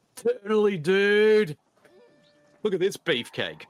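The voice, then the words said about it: Put-on Californian surfer accent. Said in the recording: “I'm going to talk with a Californian accent”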